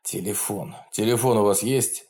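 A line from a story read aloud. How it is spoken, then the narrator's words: Hoarse, in pain. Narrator (Russian): хрипло проговорил он, морщась, когда тугой бинт сдавил ему ногу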